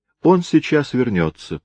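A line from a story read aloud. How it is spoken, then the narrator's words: Quiet reply. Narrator (Russian): тихо ответила Люси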